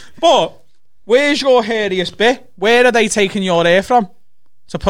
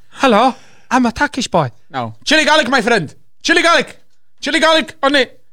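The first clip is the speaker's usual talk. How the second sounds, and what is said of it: Put-on Turkish accent. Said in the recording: “Turkish accent”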